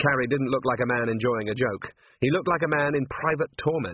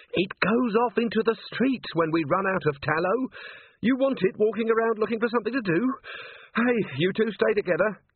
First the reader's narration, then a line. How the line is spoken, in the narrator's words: Carrie added urgently